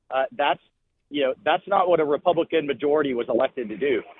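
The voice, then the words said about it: Frustrated tone of voice. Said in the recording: “you hear the frustration in my voice.”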